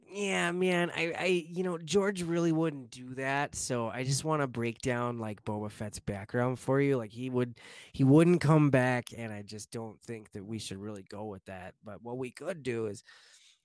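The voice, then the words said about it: Imitates another person's voice. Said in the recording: “a dead perfect impersonation of Filoni ... It's fairly close. Fairly close. It's not like the best, but it's close.”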